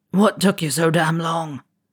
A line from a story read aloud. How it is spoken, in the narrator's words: he croaked after his coughing fit had subsided